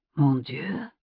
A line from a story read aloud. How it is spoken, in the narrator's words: he whispered